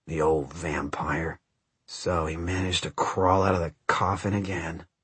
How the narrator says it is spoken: Someone behind Matt muttered

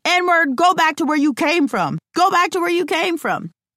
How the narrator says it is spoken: The old man is shouting from his yard, following them, shouting

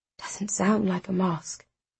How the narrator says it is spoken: Darren whispers

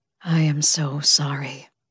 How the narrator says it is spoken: said, his voice weary

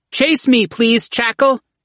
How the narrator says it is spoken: Murrow cried

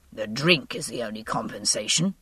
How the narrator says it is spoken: he said, a trifle hoarsely

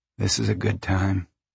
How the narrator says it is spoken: Jode said softly

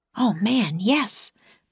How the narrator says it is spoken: breathed Jack

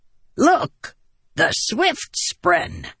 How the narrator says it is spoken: he cackled

